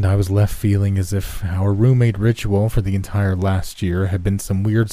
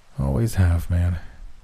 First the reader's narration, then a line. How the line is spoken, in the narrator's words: he groaned